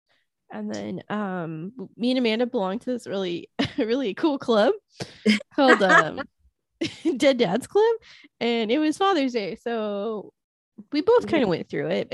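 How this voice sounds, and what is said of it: Sick-sounding voice, coughing. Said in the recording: “Still recovering, as you can tell from my voice. I still don't sound like a healthy person... I keep coughing because my lungs don't work anymore”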